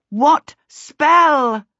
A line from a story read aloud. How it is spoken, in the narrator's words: Charmaine bawled at him